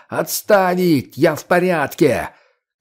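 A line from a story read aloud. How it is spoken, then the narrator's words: Yelling, unable to hear self. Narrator (Russian): не слыша себя, заорал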